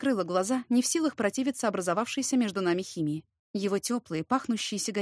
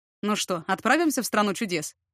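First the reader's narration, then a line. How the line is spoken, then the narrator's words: Amused snort. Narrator (Russian): хмыкнул Ярослав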